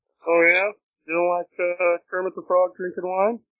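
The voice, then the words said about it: Poor Kermit the Frog impression. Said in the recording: “That was a terrible Kermit the Frog impression.”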